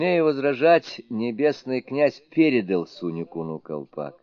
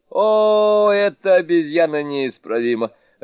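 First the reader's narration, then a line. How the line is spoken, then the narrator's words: Laughing. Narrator (Russian): рассмеялся небесный князь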